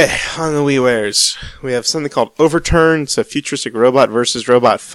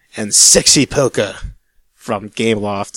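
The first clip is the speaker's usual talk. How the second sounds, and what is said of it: Weird put-on Australian accent. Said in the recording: “why'd you say that with a weird accent? ... Is that why is your sexy accent Australian?”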